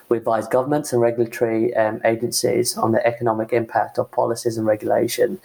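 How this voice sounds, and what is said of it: British accent. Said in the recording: “as you can tell from the accent, in the UK, where I was born and raised”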